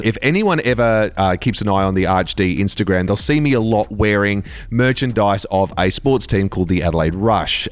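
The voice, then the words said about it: Australian accent. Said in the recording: “That sounds very weird to say in an Australian accent”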